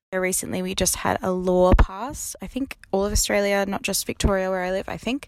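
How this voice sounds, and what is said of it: Cute little accent. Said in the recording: “this one has a cute little accent”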